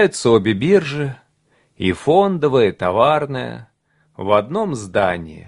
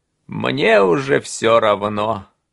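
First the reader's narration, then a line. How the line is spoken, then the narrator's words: Tired. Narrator (Russian): устало произносит Стил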